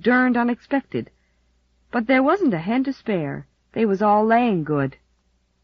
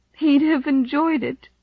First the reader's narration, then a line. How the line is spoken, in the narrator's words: she sobbed